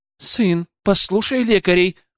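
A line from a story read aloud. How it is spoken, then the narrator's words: Mother's exclamation in Japanese. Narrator (Russian): воскликнула его мама на японском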